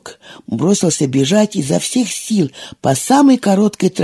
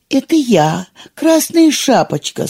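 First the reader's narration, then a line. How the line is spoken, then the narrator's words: Wolf mimicking girl's thin voice. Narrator (Russian): сказал волк тоненьким голоском девочки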